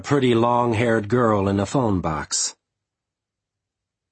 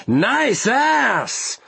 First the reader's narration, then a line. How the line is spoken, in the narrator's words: Three drunk company executives … laughing at the top of their voices every time they yelled